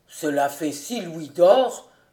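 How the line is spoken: Grumbled. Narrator (French): grommela l'un d'eux

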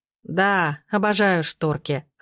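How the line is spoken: Chuckling. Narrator (Russian): хохотнул Матвей

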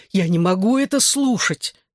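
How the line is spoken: Despairing groan. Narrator (Russian): в отчаянии застонал я

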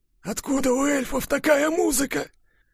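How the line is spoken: Hoarse whisper. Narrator (Russian): хрипло прошептал Кулькин

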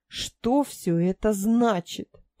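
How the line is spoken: Flustered angry growl. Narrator (Russian): прорычала я, чувствуя, как мои щеки начинают покрываться пятнами

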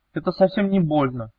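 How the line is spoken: Thin squeak. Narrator (Russian): Лиза тоненько пискнула

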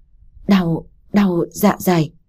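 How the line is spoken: Stammering in pain. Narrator (Vietnamese): miệng lắp bắp

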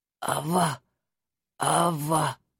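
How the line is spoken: Hoarse rasp. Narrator (Russian): прохрипел он

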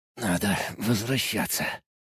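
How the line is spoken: Wounded mutter. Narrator (Russian): пробормотал, зажимая рану рукой

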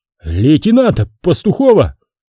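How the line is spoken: Machine gunner shouting. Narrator (Russian): закричал в лицо Егорьеву пулеметчик

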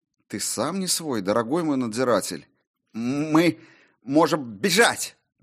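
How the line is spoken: Forced out. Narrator (Russian): Наконец выдавил он

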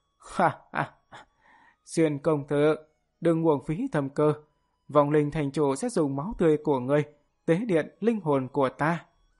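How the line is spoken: Loud defiant laugh. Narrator (Vietnamese): Lăng Gia Hoàng cười lớn một tiếng, nói

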